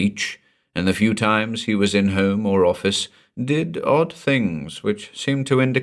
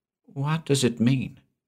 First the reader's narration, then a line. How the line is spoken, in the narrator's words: whispered